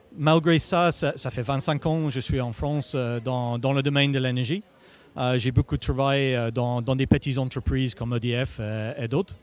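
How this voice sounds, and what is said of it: English accent speaking French. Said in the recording (French): “vous êtes manifestement d'origine anglo-saxonne ... je cache mal mon accent”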